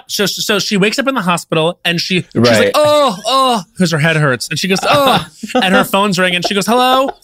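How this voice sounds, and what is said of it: Impression of Jennifer Aniston. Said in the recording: “your impression of her finding out that she has COVID again”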